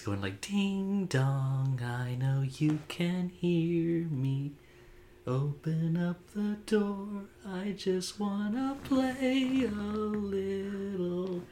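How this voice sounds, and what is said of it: Little boy ghost voice. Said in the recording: “Little boy voice”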